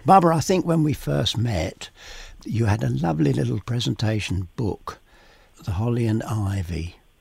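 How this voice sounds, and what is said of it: Husky voice. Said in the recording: “if I sound a bit husky today, it's because I'm afraid I've gone down with one of these summer colds”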